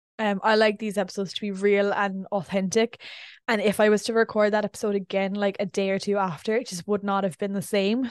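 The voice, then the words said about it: Voice sounds like it's going. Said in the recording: “Why does it sound like my voice is going?”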